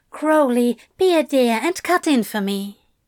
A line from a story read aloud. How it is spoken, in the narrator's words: Madame Tracy cooed